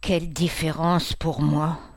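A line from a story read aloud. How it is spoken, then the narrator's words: Sighing. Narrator (French): dit-il en soupirant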